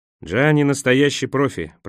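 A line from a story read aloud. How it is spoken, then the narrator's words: Grumbling. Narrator (Russian): проворчал Николас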